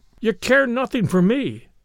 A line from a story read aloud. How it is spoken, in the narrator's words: cried the husband